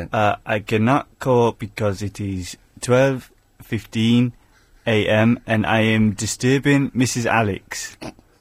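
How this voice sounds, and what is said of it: Put-on foreign accent. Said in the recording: “Do it in the accent. Go on, do the accent.”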